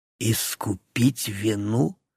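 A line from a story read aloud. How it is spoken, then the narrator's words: Hissing voice. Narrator (Russian): В моем голосе явственно послышалось шипение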